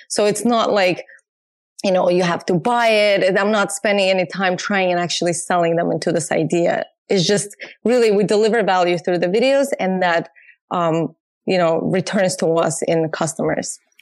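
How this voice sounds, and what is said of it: Azerbaijani-Russian accented English. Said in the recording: “Your accent is beautiful. ... I'm originally from Azerbaijan, which used to be a part of USSR. So I grew up speaking Russian”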